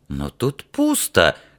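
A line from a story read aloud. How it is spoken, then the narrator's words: Bewildered. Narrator (Russian): растерянно сообщила она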